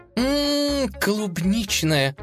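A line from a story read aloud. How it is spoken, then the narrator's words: Drawn out with relish. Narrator (Russian): с наслаждением протянула она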